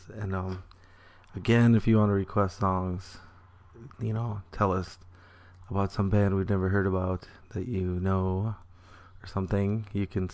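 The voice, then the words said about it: Affected, somewhat sultry-sounding voice. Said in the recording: “sorry about my voice,... but it is kind of sultry”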